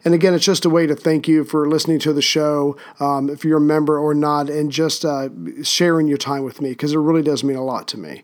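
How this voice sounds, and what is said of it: Strained, unwell-sounding voice. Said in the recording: “my voice is not quite where it should be, but hopefully you found this episode not so painful to listen to”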